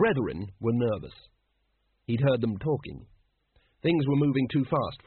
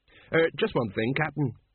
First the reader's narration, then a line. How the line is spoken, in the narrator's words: said Colon urgently